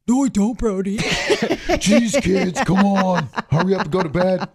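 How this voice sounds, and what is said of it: Imitates a parent's voice. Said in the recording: “trying to imitate our parents ... we were imitating our parents”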